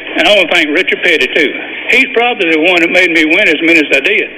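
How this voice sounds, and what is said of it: Speaker's own regional accent. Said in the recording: “Love the accent.”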